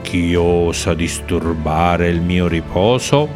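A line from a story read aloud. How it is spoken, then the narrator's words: Deep rumbling voice. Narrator (Italian): chiese con voce profonda come un tuono lontano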